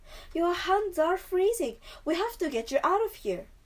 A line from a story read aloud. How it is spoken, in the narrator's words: exclaimed